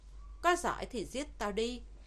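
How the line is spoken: Loud laugh, icy tone. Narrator (Vietnamese): Gã cười to, giọng điệu vô cùng lạnh lùng

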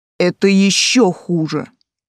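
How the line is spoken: Icy interrupting voice. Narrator (Russian): ледяным голосом прервал меня блондин

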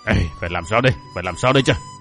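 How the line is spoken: Flustered mutter. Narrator (Vietnamese): Thánh Hỏa Thiên Tôn bị thằng bé làm cho toát mồ hôi lạnh, miệng thì lẩm bẩm

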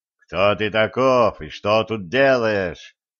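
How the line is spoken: Menacing question. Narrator (Russian): грозно вопросил

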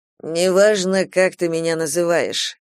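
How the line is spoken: Bored reply. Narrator (Russian): ответил он таким же скучающим тоном, каким говорил Кейран

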